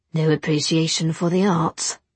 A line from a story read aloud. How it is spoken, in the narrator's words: Will murmured